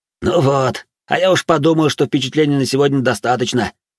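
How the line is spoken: Wry snort from behind. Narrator (Russian): хмыкнул за спиной Канс

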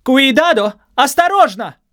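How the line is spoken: Shouting. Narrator (Russian): крикнула Мария Лачамба, учительница

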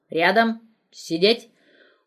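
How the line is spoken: Stern command. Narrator (Russian): Полковник строго скомандовал

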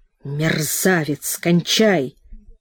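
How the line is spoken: Hissed through angry sob. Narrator (Russian): сквозь прорвавшийся злобный свой всхлип прошипел

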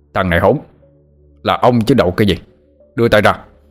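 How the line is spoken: Shouting. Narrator (Vietnamese): Ông hai quát mắt lên

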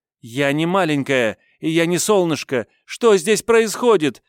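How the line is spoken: Girl shouting, losing control. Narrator (Russian): Закричала, не сдержавшись, девчонка

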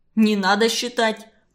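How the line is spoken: Rude. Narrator (Russian): грубо сказал он

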